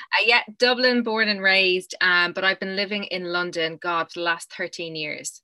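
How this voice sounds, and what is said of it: Irish Dublin accent. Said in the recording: “absolutely gorgeous accent ... Gorgeous accent is from Dublin in Ireland ... I've managed to hold on to that Irish accent”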